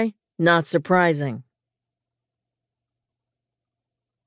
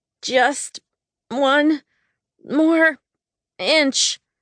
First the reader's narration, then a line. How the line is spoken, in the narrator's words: I groaned as I stretched as far as my muscles would allow